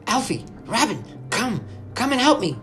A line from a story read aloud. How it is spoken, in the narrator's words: Amy cried